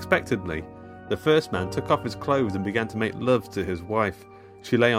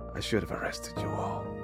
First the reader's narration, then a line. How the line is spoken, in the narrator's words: With his last breath, the seventh man whispered